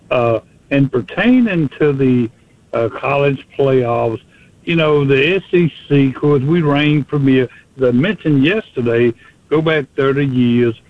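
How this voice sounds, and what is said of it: Southern drawl accent. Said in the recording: “I have the Southern drawl”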